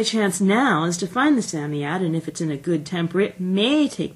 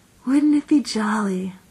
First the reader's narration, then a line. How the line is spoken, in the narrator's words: said Jane dreamily